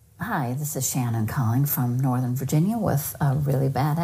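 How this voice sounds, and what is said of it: Usual voice. Nothing is said of it.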